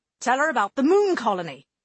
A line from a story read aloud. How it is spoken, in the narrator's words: Skulls snapped